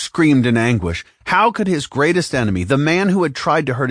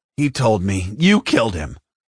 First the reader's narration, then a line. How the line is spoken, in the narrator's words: Luke snapped